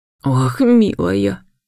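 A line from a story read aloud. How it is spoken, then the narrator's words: Grieving sigh. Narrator (Russian): Госпожа Амельда сокрушенно вздохнула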